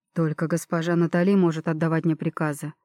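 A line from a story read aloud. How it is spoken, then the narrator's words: Calm reply. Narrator (Russian): спокойно отозвался на это эльф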